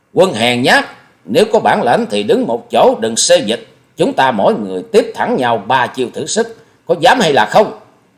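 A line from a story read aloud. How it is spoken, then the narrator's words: Fierce roar. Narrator (Vietnamese): Hòa Sĩ Kiệt gầm như cọp rắn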